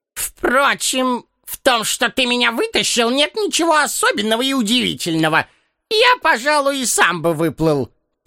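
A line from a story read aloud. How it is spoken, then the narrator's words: Grumpy voice. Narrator (Russian): продолжал он сварливым голосом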